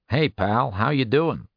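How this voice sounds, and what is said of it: Nasal Brooklyn accent. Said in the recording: “in his nasally Brooklyn accent”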